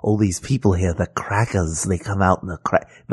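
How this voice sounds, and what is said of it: Whispered evil henchman voice. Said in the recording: “Why does he sound like a sidekick to Voldemort? ... You did like evil henchman voice ... I'm whispering”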